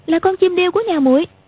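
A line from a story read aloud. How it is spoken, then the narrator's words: Exclaiming. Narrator (Vietnamese): kêu lên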